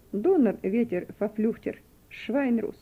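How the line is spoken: Mocking. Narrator (Russian): один из офицеров насмешливо сказал

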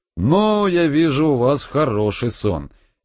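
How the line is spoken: Cheerful. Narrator (Russian): весело сказал Анатолий

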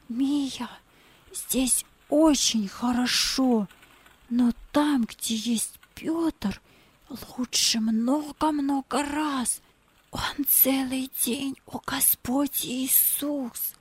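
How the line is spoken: Whispering in ear. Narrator (Russian): прошептал ей на ухо

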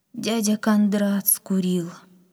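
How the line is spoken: Sad old woman. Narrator (Russian): грустно ответила бабушка

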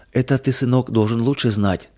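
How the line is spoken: Tender, affectionate. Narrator (Russian): ласково сказала мама

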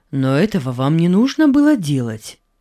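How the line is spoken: Plain. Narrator (Russian): сказал Иосиф

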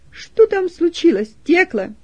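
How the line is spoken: Loud question. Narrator (Russian): громко спросила

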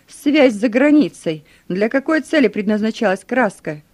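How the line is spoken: Threatening shout. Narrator (Russian): Кто-то из них с угрозой выкрикнул

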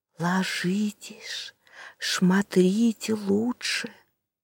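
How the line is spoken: Very quiet whisper in ear. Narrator (Russian): прижавшись губами к Тирианову уху, как можно тише прошептала

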